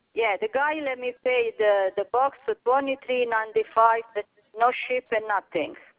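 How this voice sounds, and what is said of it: Foreign accent, hard to understand. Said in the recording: “Is it your accent? But, you know, I was having hard times understanding you.”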